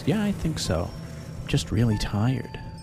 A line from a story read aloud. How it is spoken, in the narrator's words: she replied in her usual calm voice